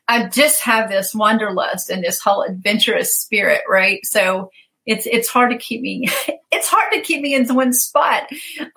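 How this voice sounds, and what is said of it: Southern US accent. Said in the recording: “You can probably tell from my accent that I'm in the South, right?”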